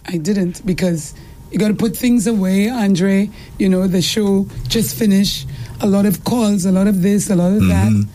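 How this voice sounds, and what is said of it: Tired, rough sleep-deprived voice. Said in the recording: “still no sleep, so you have to excuse the voice ... My voice gets like that ... It's because I need sleep.”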